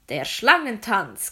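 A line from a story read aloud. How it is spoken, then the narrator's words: Loud announcement. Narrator (German): kündigte ein Sklave mit lauter Stimme an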